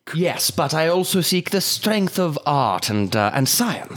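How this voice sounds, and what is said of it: Put-on character accent. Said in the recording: “Abandoning the accent, I see.”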